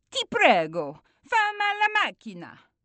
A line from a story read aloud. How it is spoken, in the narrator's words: Gio shouts